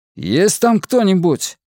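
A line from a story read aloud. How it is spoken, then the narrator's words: Shouted. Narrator (Russian): крикнул он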